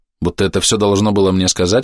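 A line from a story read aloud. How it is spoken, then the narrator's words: Plain. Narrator (Russian): ответила она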